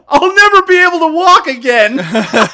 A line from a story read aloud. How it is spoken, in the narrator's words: screams